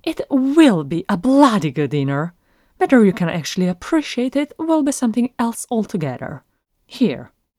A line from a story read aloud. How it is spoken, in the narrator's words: Bilbo snapped back